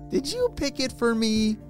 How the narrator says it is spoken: Ellie laughed

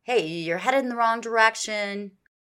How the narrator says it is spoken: he yelled to them

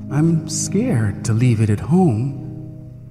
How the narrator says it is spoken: he said very softly

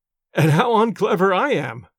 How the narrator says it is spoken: said, laughing

